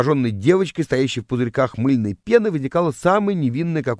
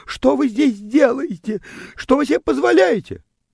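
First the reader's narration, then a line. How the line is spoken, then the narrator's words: Startled, indignant girl squealing. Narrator (Russian): Девочка взвизгивала от неожиданности и возмущенно вопрошала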